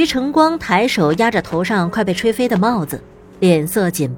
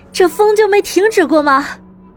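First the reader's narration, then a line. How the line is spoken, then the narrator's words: Loud question. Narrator (Chinese): 林鸾……大声的问道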